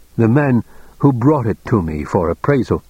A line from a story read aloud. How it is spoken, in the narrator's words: Childan said thickly